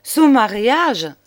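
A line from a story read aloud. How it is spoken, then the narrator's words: Exclaiming, bursting into laughter. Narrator (French): s'écria Juliette en éclatant de rire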